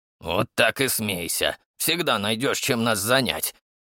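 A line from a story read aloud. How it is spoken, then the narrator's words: Grumbling. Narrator (Russian): пробурчал Дон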